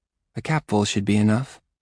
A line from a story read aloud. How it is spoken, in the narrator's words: she says, so softly I don't think the words are directed at me